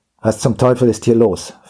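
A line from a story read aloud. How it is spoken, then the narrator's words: Gruff demanding voice. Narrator (German): verlangte er mit barscher Stimme zu erfahren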